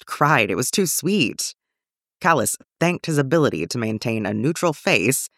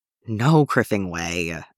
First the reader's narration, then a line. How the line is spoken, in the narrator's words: Ezra groaned